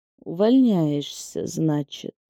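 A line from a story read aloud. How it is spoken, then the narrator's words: Drawn-out hiss. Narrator (Russian): Протянул, прошипел Алексей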